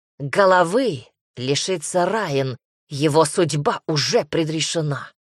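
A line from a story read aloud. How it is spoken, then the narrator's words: Cut off rudely. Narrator (Russian): грубо отрезал Вальтер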